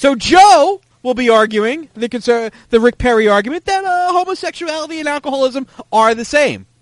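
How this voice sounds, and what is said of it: Usual voice. Nothing is said of it.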